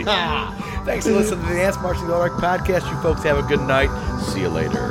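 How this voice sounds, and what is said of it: Radio announcer voice. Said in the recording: “I'm going to go into radio voice now”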